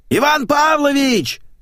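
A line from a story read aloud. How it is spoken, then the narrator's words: Shouting from the corridor. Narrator (Russian): заорала из коридора домработница Ленка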